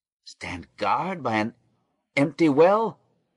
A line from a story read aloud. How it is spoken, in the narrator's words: cried Reuben, his voice choking